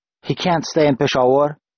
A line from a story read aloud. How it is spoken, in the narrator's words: I said, panting